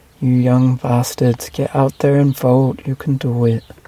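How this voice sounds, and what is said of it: Unidentified put-on accent. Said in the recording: “Don't know what accent that was”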